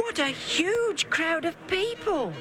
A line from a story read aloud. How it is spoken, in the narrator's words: exclaimed